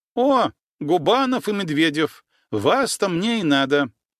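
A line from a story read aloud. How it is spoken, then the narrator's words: Loud. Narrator (Russian): громко произнесла она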